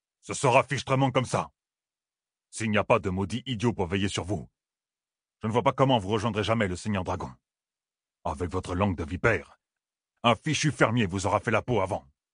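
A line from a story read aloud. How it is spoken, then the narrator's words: Growling. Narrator (French): grogna Uno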